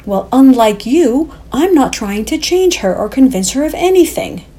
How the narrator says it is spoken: countered hotly

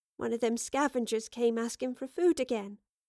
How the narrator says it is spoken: said timidly

